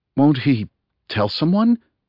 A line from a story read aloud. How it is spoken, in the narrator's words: gasped Adam